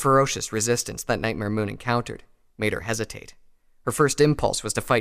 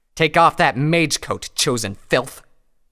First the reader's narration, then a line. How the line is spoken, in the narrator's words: snarled